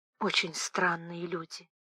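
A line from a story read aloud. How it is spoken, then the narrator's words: Quiet. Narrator (Russian): тихо сказала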